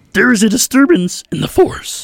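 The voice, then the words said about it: Yoda impression. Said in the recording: “Is that a Yoda impression? ... That was perfect, yeah. ... That's not a bad Yoda.”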